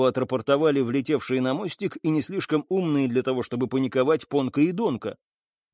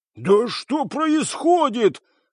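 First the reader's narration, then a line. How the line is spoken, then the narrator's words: Yelling chorus. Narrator (Russian): хором заорали жирафы и солянка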